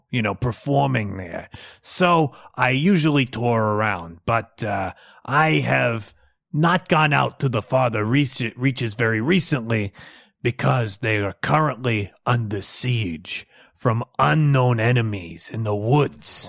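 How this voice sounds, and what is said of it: Speaks with an accent. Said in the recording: “I've got an accent.”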